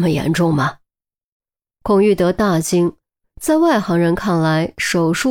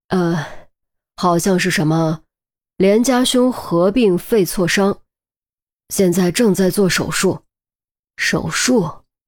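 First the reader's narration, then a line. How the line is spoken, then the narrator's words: Deep, low voice. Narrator (Chinese): 陆明沉声道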